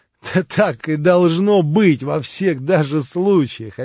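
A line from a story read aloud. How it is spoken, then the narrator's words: Laughing. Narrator (Russian): опять засмеялся Иван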